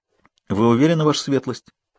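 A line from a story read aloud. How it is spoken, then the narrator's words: Quiet, smiling question. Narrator (Russian): тихо спросил мессер Беппо, слегка улыбнувшись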